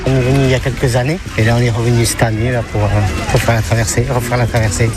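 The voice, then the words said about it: Slight sing-song regional accent. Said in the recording (French): “Il y a comme un petit accent chantant.”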